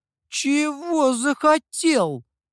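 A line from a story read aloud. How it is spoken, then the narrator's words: Indignant drawl. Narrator (Russian): возмущенно протянула лисица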